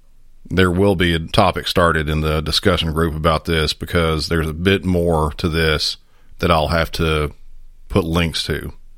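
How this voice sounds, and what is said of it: Voice slightly off, unwell. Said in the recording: “my voice is a little off this episode. I kind of came down with some sort of funk, and my voice is still trying to get past all of it.”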